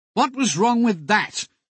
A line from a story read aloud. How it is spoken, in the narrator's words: John would inquire testily